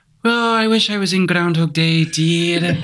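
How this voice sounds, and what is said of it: Mrs. Doubtfire impression. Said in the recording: “you can do a pretty good Mrs. Doubtfire voice ... I've tried to perfect the voice over so many years. I'm quite good at it”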